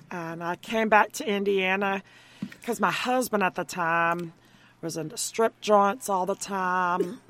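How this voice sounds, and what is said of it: Heavy Southern American accent. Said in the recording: “She's very Southern heavy ... she loses a Southern twang”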